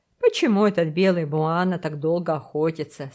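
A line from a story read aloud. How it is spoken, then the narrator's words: Plain. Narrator (Russian): спросил мисс Херри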